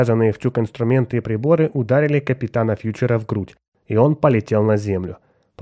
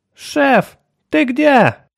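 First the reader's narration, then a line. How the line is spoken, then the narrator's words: Yelling from below. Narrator (Russian): вопил откуда-то снизу Отто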